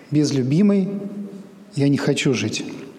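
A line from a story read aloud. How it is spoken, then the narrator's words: Calm statement. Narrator (Russian): Принц спокойно произнес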